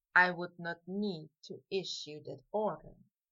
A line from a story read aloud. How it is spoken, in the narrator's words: Draco mumbled back